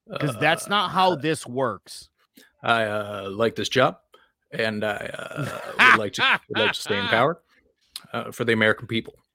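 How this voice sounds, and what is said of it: Barack Obama impression. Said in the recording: “That's a great impression, by the way.”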